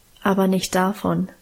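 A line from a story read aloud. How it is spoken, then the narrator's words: Calm. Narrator (German): antwortete Guste ruhig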